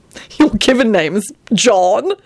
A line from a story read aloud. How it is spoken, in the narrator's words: Antonin giggled